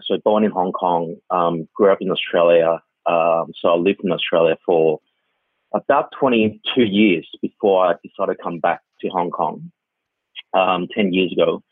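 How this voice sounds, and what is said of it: Australian accent. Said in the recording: “as you can tell from my accent, I actually grew up in Australia”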